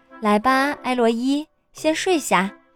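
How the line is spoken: Smiling, gentle. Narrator (Chinese): 妈妈笑了笑 对我说

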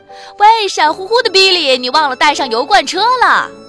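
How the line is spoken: Calling out from behind. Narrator (Chinese): 马维斯在后面叫他

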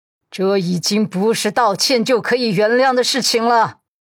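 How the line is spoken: Heavy, through clenched teeth. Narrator (Chinese): 老太太咬牙，嗓音沉重

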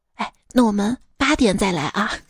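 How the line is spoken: Quiet, hushed. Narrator (Chinese): 我妈小声跟我说

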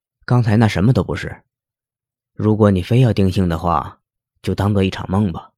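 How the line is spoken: Soft voice. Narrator (Chinese): 轻声的说

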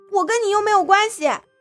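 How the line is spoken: Uncontrolled raised voice. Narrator (Chinese): 苏荣不受控制的拔高声音

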